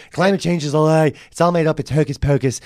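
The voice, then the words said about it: Weak Donald Trump impression. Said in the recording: “It's like Trump went, climate change is a lie. That's not him. ... I can't do a Trump impression.”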